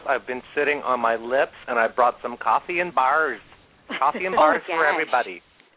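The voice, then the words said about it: Put-on Minnesota accent. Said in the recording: “You sound just like my Aunt Kathy ... I love that Minnesota accent”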